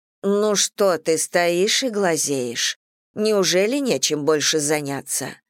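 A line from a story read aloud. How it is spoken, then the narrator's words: Gruff mutter. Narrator (Russian): буркнула она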